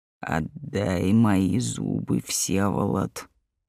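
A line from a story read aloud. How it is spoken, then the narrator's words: Muffled hoarse voice. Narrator (Russian): глухой хриплый голос произнес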